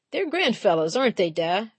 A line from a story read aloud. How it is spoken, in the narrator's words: Frankie laughed